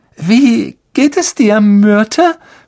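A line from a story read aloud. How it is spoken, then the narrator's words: Forced cheerful voice. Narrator (German): fragte Hermine mit gekünstelt munterer Stimme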